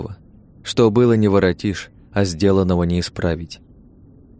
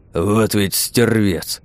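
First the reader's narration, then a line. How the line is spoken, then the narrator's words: Grumbling. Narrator (Russian): проворчал Александр Петрович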